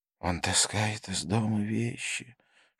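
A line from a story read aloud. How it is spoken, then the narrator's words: Father, whispered complaint. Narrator (Russian): шепотом посетовал его отец, когда Викрама уложили спать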